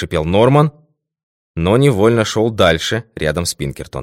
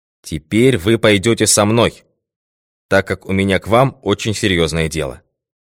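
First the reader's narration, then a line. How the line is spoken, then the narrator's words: Decisive tone. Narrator (Russian): решительным тоном произнес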